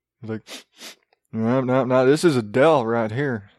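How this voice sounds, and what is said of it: Nerd character voice sounding country. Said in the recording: “my nerd sounds so country”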